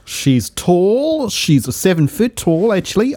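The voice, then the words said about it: Put-on accent, not quite right. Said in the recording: “this accent's not quite right”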